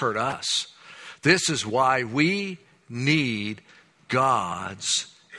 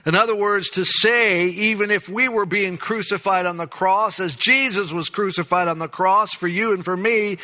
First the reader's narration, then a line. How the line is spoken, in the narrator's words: He cried out